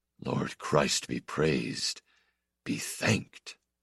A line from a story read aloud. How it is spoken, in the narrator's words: He murmured